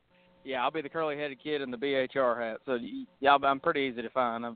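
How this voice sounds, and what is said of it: Southern accent. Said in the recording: “I got a southern accent”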